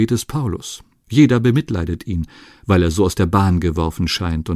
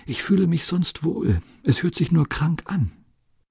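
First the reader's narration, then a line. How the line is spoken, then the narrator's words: Faint whisper. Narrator (German): Sie können gerade noch flüstern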